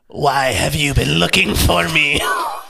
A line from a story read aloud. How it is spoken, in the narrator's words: croaked Bluttery